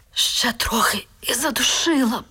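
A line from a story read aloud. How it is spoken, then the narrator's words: Faint whisper. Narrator (Ukrainian): ледь прошепотіла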